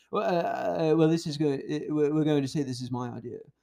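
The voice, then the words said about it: Imitates another person's voice, somewhat British. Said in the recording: “good Elon Musk impression ... It gets too British. I know he's South African.”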